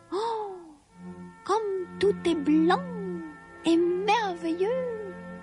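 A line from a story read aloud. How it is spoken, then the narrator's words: Crying out. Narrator (French): s'écria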